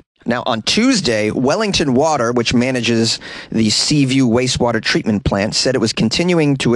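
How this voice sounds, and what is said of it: Usual voice. Nothing is said of it.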